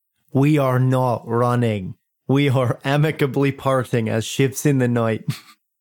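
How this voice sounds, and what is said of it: Put-on Irish accent slipping Scottish. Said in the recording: “you're slipping into Scottish ... I legitimately have worked on my Irish accent”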